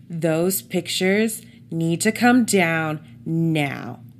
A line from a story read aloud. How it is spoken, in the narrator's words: he bellowed